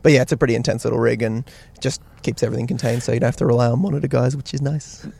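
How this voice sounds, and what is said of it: Australian accent. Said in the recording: “you guys are from Australia, which is pretty evident by your accent.”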